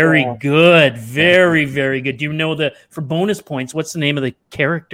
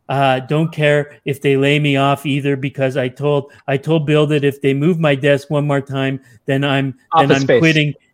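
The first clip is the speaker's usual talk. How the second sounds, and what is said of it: Good impression of a film character. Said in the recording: “Your impression kind of gave it away a little bit. ... you sold it. ... That is a good impression. ... It was a good one.”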